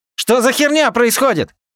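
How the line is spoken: Yelled. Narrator (Russian): заорал

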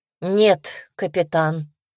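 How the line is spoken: More confident voice. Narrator (Russian): сказала более уверенным тоном

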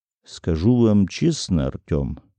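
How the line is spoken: Calm, hulking man. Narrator (Russian): спокойно ответил глыба Брауншвайгер

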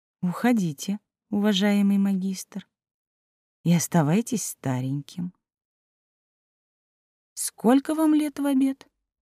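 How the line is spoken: Calm, quiet female voice. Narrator (Russian): Элина Виленовна спокойно и тихо сказала

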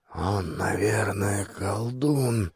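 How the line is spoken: Muttered. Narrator (Russian): пробормотал мой Керл Сигурд

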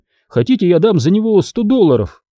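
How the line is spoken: Laughing loudly. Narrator (Russian): Билл расхохотался

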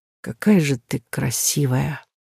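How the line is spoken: Breathless quiet whisper. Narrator (Russian): сказанные на выдохе тихим шепотом

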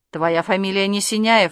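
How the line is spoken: Curt angry retort. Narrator (Russian): отрезала она сердито

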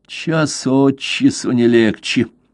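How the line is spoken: Gloomy grumble. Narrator (Russian): проворчал мрачно

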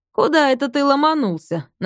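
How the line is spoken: Mocking question. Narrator (Russian): насмешливо спросил Рустам

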